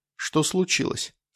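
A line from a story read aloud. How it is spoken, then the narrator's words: Calm question. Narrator (Russian): спросил я спокойно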